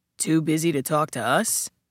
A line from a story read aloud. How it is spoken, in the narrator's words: Kepler repeated, his voice gravel